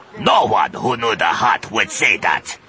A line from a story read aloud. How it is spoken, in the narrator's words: he growled